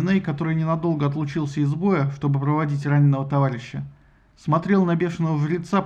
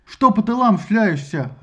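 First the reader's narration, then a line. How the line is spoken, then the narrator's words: Barked. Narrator (Russian): рявкнул Доминей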